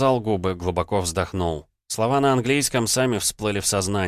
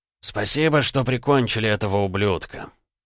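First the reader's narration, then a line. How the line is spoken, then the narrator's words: Hoarse man. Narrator (Russian): хрипло ответил мужчина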